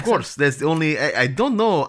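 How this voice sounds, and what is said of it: Put-on Eastern European accent. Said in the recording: “Eastern European accent”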